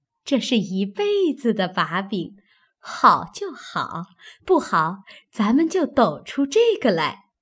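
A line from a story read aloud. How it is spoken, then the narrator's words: Laughing. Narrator (Chinese): 平儿 笑道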